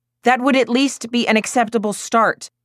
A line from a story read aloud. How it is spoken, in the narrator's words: snapped Tony